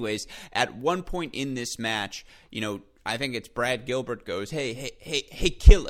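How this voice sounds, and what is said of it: Usual voice. Nothing is said of it.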